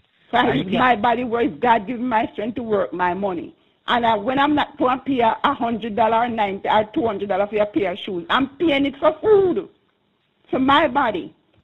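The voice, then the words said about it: Passionate, emphatic speaking. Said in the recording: “I can hear the passion in your voice.”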